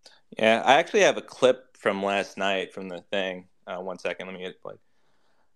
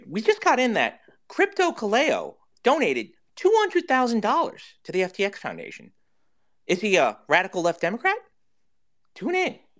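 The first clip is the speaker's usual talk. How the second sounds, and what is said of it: Tucker Carlson impression. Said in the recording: “trying to do a Tucker Carlson impersonation”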